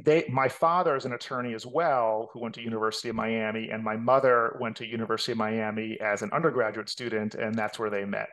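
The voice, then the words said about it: New York accent. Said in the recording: “I can still hear the New York accent.”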